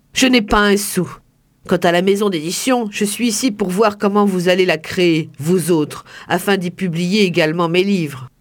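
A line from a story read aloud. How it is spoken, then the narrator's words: Curt, dry. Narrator (French): conclut sèchement Alfredo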